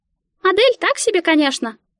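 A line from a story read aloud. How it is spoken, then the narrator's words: Squeaked. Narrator (Russian): пропищала Мика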